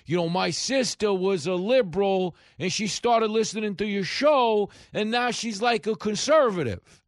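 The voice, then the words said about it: Imitates a woman's voice. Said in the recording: “that's a woman talking in that impersonation”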